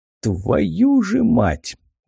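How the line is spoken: Exhaled curse. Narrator (Russian): выдохнул у меня за спиной Самгар

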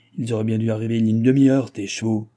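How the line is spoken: Growled. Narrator (French): gronda du Barry

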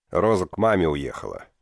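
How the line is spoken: Grumbling mutter. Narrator (Russian): буркнул Элиас

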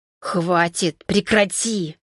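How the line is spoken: Angry whisper. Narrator (Russian): Со злостью прошептал

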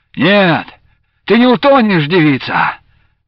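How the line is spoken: Rough shout. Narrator (Russian): грубо крикнул он

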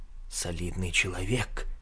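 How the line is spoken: Muffled whisper. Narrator (Russian): шепотом сказал клерк, приложив руку ко рту

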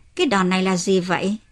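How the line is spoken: Smiling. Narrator (Vietnamese): Ki-un mỉm cười

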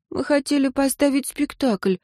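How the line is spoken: Sigh, plaintive sob. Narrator (Russian): вздохнула Агата и жалобно всхлипнула

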